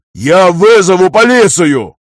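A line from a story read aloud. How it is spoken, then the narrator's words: Uncontrolled shouting. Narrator (Russian): орал, уже не сдерживаясь, Дирле Вангер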